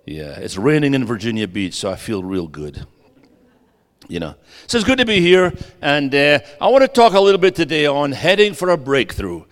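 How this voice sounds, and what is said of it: Texas drawl. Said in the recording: “Am I talking my best Texan for you? ... I'm trying to do that Texas drawl today.”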